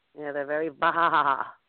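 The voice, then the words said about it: Bleating sheep imitation. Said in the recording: “bad sheep impression”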